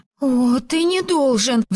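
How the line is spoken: Pleading. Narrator (Russian): взмолилась она

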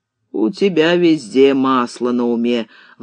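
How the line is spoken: Grumbling. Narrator (Russian): ворчал сплавщик Лупан

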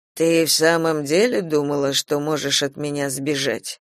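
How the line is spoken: Quiet question. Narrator (Russian): тихо спросил Кастил

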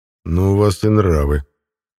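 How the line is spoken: Grumbling. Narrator (Russian): проворчал я

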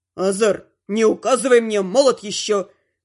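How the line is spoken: Barked. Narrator (Russian): Рявкнул почти бывший

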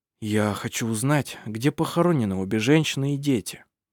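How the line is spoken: Soft, gentle. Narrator (Russian): мягко сказал Хейке

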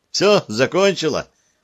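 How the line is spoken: Joyful. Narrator (Russian): радостно заявила она

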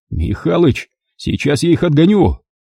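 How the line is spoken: Frantic shouting. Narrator (Russian): орал я, лихорадочно

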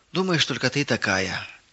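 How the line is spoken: Heavy sigh. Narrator (Russian): тяжело вздохнула Ирина

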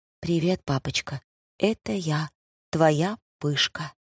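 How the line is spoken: Whispered. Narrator (Russian): прошептала

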